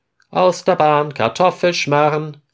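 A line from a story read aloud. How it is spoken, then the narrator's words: Call. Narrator (German): Florian ruft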